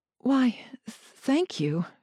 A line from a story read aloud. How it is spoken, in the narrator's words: stammered